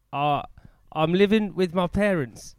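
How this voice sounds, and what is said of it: Attempted Essex accent, sounds Australian. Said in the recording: “Give me your best Essex accent ... That was Australian. That was Australian.”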